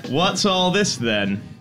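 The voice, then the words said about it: Put-on British police officer accent. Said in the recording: “Is that your British cop voice?”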